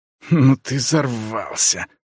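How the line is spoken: Hissed. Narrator (Russian): прошипел второй

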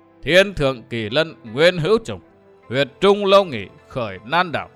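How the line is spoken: Hearty laughing old man chanting. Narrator (Vietnamese): Đông Cuồng bằng một giọng cười hào sảng, lão ngâm lên

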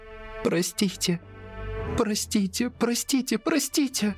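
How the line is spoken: Sobbing. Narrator (Russian): Она рыдала

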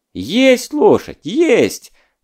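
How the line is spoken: Relieved, joyful shout. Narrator (Russian): облегченно и радостно заорал Садко новгородский

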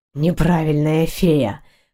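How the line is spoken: Hoarse, bewildered. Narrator (Russian): хрипло бросил рыцарь, не понимая, что вообще за слова произносит

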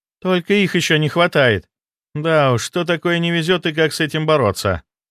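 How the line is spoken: Sister sighing. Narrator (Russian): вздохнула сестра

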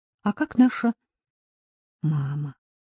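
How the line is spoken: Quiet cautious question. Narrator (Russian): Он задал этот вопрос тихо, опасаясь, что приемная мать услышит его

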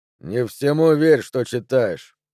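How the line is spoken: Grumbling. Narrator (Russian): вело проворчал он

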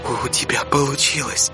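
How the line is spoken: Awed whisper. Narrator (Russian): С благоговейным трепетом прошептала она

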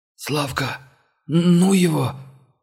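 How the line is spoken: Hoarse trembling voice. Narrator (Russian): сиплый голос монгола предательски дрогнул

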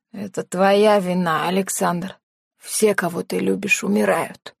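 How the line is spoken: Creaky voice. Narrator (Russian): произнес он скрипучим голосом

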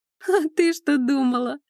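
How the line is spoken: Laughing. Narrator (Russian): рассмеялась она

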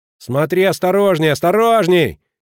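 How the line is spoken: Shouting after someone. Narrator (Russian): кричал Шани ей вслед

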